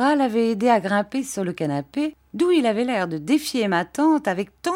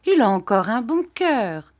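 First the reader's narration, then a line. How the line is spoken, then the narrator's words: Aunt speaking cheerfully. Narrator (French): dit gaiement ma tante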